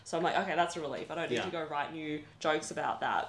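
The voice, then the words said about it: Australian accent. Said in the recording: “do I need to explain that I'm Australian ... With that accent, you don't sound like a normal person.”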